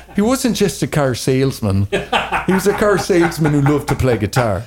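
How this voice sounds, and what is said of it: Put-on Irish accent. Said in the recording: “let me try my Irish accent. ... I can do a couple accents”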